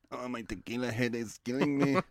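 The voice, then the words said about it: Put-on accent. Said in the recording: “Oh, the accent.”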